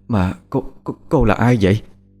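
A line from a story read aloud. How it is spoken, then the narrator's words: Stammering question. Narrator (Vietnamese): Bà lắp bắp hỏi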